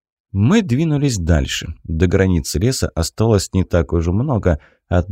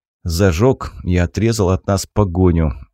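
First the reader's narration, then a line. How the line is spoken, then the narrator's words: Tired, curt remark. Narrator (Russian): устало бросил я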